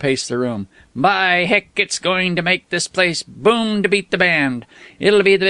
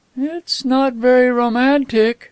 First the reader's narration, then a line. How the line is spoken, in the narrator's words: her voice became dreamy again